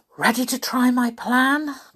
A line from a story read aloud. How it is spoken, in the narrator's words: Bagheera whispered to Mowgli